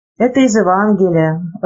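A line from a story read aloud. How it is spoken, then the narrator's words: Timid. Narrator (Russian): робко сказал Горбун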